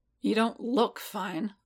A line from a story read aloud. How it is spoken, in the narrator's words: Boba grumbled